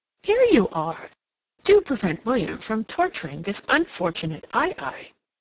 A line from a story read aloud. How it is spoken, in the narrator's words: She exclaimed